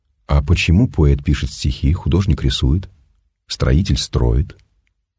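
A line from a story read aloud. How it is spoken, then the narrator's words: Plain question. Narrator (Russian): спросил странник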